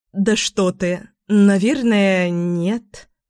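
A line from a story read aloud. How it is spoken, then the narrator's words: Doubtful drawl. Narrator (Russian): с сомнением протянула она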